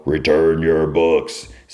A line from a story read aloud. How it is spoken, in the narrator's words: They like growl